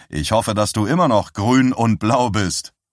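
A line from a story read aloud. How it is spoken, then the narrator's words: Loud speech. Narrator (German): sagte er laut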